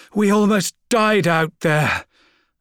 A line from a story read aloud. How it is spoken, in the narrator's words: Albard gasped